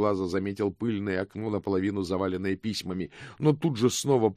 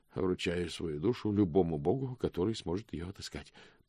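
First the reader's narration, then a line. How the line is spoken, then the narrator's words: Mumbled. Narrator (Russian): пробормотал он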